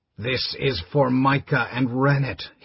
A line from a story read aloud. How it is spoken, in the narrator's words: hissed Liam's vicious voice